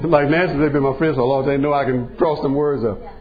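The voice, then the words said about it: Texas Louisiana accent. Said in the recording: “my my Texas Louisiana accent”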